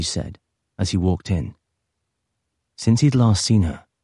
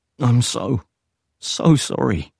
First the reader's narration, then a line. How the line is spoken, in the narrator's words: he said, his voice already cracking